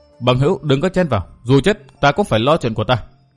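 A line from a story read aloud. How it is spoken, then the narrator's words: Suppressed anger, cold smile. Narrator (Vietnamese): Tiểu Nhạn nóng lòng nảy giận dữ nhưng không tiện phát tác, bèn nén giận cười nhạt nói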